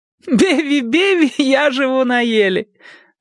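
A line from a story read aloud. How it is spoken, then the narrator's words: Answer then loud laughter. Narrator (Russian): ответила она и вновь захохотала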